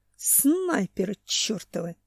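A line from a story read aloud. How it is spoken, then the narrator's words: Hiss. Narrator (Russian): прошипел Семен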